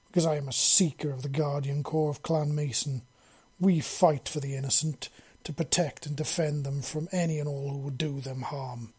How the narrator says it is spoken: Liam growled darkly

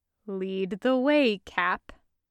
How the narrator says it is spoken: he says, making sure to say that in his driest tone of voice

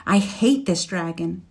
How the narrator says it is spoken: she said fiercely

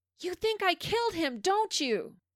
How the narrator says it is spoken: Eric then yells out

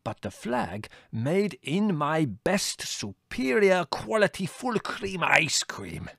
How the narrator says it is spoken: he said triumphantly

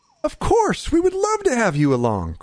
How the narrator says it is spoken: Krendar exclaimed

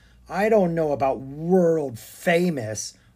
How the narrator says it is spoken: Arthur grumbled, a bit enviously

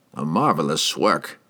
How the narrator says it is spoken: he mumbled

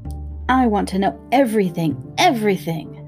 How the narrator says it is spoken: screeched Harriet suddenly

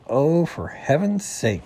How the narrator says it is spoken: said Bunny

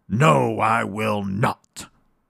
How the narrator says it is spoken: growled the bad old skillery-scalery alligator

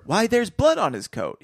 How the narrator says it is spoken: he exclaimed

